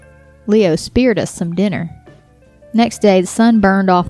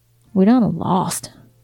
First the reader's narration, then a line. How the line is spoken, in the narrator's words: Phil muttered